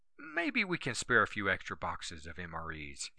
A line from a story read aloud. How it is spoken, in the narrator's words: said